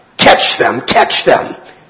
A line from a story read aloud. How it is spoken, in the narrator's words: scornfully, they cried out